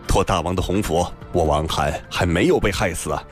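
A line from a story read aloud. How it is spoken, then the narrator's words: Cold. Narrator (Chinese): 王翰冷冷地道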